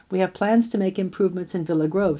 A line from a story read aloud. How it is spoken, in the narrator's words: said